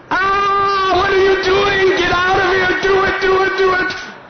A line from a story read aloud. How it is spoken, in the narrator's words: she starts screaming